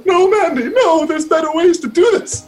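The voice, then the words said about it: Imitates another person's voice. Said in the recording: “your Otis impression... Point deducted from the Otis impression.”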